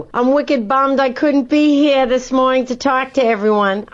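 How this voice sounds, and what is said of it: Boston accent. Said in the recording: “from Boston for Townie Madness, finding Boston's best accent”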